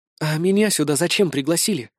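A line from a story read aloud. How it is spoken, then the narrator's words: Whispered question. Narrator (Russian): шепотом спросила Наира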